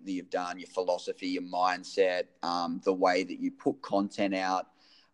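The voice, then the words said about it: Non-American English accent. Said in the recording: “I'm incredibly jealous of your accent because I feel like it makes everything sound way cooler than the American accent.”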